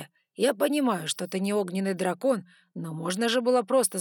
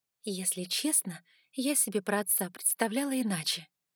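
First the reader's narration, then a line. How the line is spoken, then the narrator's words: Quiet voice. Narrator (Russian): тихо проговорила я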